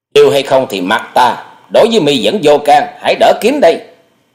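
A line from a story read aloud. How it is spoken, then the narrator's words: Shouting back. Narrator (Vietnamese): quát lại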